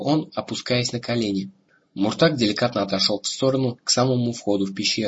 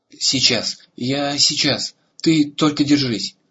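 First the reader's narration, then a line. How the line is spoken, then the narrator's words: Desperate shout. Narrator (Russian): Арагон в отчаянии крикнул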